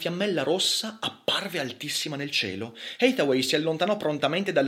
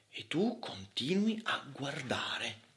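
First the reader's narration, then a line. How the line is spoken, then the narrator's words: Whisper. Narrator (Italian): bisbigliò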